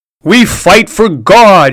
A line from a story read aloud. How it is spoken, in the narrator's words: he shouted to his mob